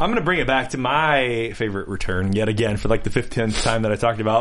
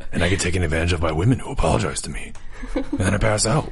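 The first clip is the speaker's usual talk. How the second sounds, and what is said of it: Very deep, low character voice. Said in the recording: “I'm just gonna keep talking in my Charles Vane voice ... my voice is lower than yours”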